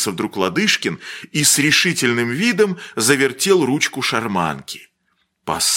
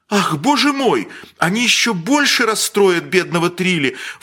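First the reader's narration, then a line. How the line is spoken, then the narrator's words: Lamenting exclamation. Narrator (Russian): воскликнула плачевно дама в голубом капоте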